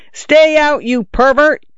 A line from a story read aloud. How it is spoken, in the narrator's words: I yelled in a voice not mine